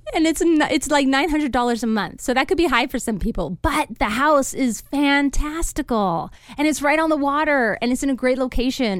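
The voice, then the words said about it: Speaks with a noticeable accent. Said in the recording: “you know me and my accent ... I'm not getting it with the accent.”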